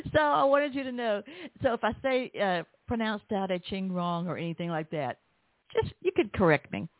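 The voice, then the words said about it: Southern American accent. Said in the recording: “I've got a Southern accent”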